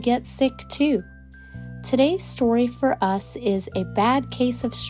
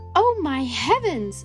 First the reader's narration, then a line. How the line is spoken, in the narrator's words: cried